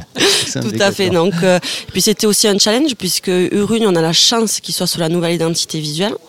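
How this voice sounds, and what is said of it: Basque French accent. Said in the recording (French): “tu es basque à ton accent”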